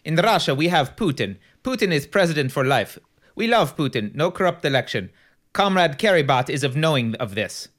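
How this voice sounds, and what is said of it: Poor imitation of Russian accent. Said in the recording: “I'm going to try an accent. ... My accent's horrible.”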